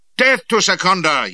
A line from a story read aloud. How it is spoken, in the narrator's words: yelled the mob